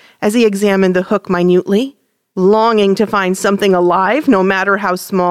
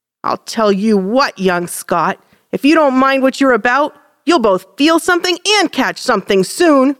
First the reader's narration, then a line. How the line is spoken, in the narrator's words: grumbled the big boy